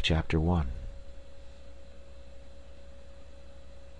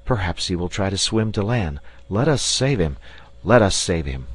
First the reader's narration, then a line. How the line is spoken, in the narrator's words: the 4 castaways … they all, thinking of the absent one, simultaneously exclaimed